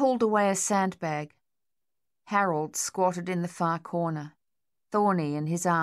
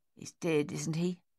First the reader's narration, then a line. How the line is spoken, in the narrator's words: Dave said gruffly